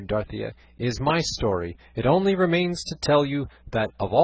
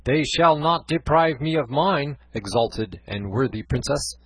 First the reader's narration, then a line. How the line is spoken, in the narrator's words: said Don Quixote